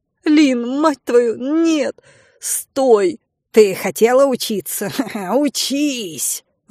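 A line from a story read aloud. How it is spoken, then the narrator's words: Sinister laughter. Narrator (Russian): Зловеще расхохотался демон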